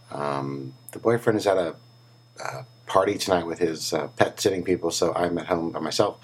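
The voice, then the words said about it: Sick, strained voice. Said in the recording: “my voice is still under the weather ... my voice is still not back, as you can hear”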